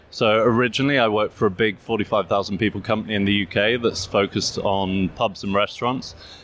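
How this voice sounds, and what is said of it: English accent. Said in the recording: “your English accent ... as you get from my accent, UK-based”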